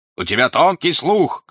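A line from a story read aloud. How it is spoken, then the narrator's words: Shouting. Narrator (Russian): кричал он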